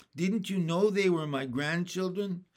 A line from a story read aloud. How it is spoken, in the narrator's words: The doctor laughed